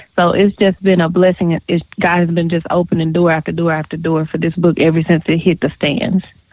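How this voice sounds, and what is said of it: Southern Texas accent. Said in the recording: “I can hear that Southern accent. I hear that little Dallas touch.”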